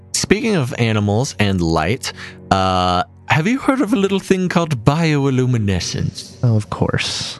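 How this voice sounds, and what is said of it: Unidentified put-on accent. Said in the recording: “I don't know what that accent was or why bioluminescence prompted me to enter that accent”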